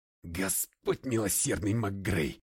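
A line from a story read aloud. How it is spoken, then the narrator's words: Unrestrained bark. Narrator (Russian): Несдержанно рявкнул я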